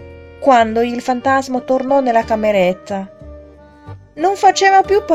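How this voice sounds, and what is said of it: Usual voice. Nothing is said of it.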